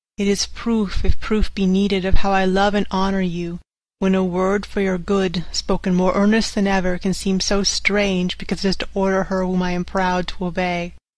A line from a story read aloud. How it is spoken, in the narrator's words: he said sadly